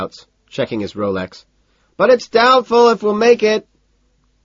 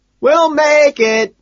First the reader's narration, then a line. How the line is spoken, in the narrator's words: he shouts